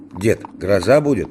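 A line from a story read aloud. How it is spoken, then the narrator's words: Plain. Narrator (Russian): спросил Егорушка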